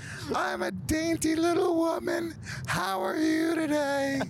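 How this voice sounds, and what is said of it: High falsetto woman's voice. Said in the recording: “You sound terrifying. ... You sound like a horror note. Like a horror note come to life. ... It hurts so much to try to speak in a falsetto.”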